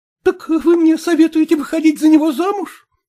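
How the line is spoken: Exclaimed. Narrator (Russian): воскликнула Саняша

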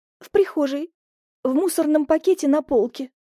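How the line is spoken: Timid squeak. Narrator (Russian): пискнула я и вжала голову в плечи

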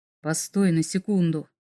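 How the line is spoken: Very quiet. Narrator (Russian): очень тихо произнес Вергард

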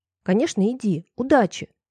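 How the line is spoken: Curt, peremptory tone. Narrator (Russian): Безапелляционным тоном отрезала я

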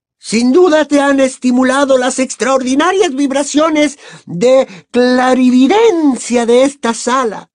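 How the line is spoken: Exclaiming. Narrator (Spanish): exclamó la profesora Trelawney

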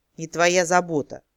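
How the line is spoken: Rude grumbling elf. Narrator (Russian): довольно невежливо пробурчал эльф

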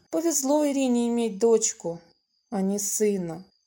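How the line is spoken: Sighing. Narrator (Russian): вздохнула Маша

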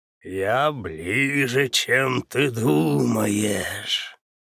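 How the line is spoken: Menacing rasp. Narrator (Russian): прохрипел он угрожающим голосом

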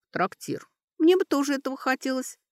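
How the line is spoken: Squeaky voice from behind. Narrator (Russian): пискнула девушка-эльф из-за его спины

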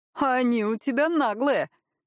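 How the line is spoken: Short laugh. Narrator (Russian): хохотнул Пашка

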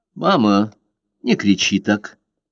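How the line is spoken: Calm. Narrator (Russian): спокойно сказала Карла

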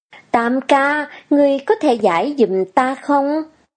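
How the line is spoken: Smiling speech. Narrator (Vietnamese): Lâm Vãn Vinh mỉm cười

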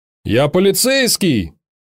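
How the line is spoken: Distant male shout. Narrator (Russian): крикнул мужской голос из глубины зала

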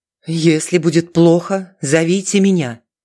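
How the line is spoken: Commanding nun. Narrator (Russian): властным тоном заключила монахиня

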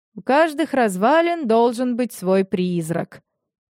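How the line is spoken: Snorting. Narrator (Russian): Витёк хмыкнул

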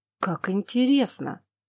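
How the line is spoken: Muttered. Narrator (Russian): пробормотал

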